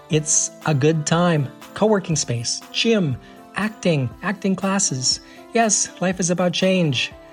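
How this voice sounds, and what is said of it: American accent. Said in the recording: “people from the U.S. come to the U.K., so my accent would not be an issue ... so many people in the U.K. tell me that they love my accent ... in the U.S. we don't think we have an accent, but we do”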